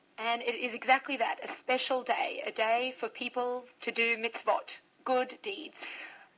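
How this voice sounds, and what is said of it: South African accent. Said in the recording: “You can hear her accent. ... she's... an ex-South African. ... Listen to her accent.”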